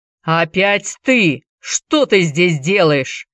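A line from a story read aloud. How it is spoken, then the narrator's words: Angry growl. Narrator (Russian): зарычал Джеймс, увидев Энди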